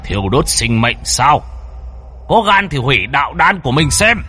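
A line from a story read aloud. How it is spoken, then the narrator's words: Loud defiant laughter. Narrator (Vietnamese): Xích Đế ngẩng mặt lên mà cười lớn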